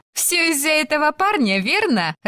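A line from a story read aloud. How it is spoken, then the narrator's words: Laughing. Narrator (Russian): рассмеялась Бесси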